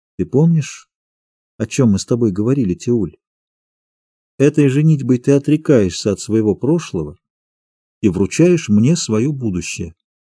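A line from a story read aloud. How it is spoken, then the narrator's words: Quiet question. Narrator (Russian): Отоми тихо спросила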